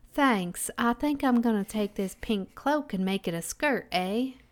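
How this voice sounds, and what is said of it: Put-on rural Canadian accent. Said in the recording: “Accent? ... Are you a country Canadian?”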